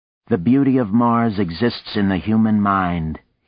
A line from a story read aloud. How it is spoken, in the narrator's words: he said in that dry, factual tone